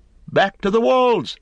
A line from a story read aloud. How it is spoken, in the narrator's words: they cried